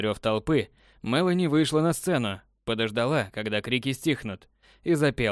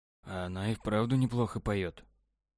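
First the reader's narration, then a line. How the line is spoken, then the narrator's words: Whispered. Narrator (Russian): шепотом сказал Павел Насте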